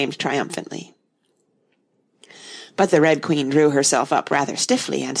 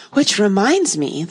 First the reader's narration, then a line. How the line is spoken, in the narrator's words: the White Queen said, nervously